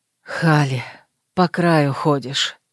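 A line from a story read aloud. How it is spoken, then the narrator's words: Breathed against lips. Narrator (Russian): выдохнул мне в губы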